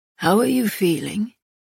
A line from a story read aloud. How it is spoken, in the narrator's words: Castile asked, his voice rough